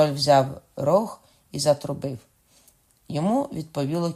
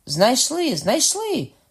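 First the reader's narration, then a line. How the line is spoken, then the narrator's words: King's sharp exclamation. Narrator (Ukrainian): скрикнув король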